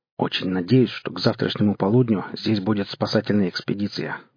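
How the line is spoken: Grumbled. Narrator (Russian): буркнул Кудыкин

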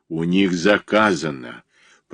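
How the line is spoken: Growled. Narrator (Russian): прорычал

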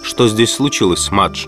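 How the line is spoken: Calm question, young man. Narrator (Russian): спросил молодой человек спокойно

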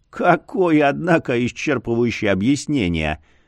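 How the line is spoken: Dead man's chuckle. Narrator (Russian): хохотнул покойник

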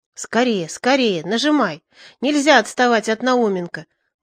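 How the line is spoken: Inner urgent whisper. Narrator (Russian): мысленно шептал я себе

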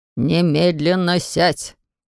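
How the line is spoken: Booming demand, father. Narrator (Russian): потребовал отец громогласным тоном

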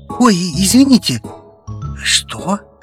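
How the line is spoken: Whispered. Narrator (Russian): Повторил он уже шепотом

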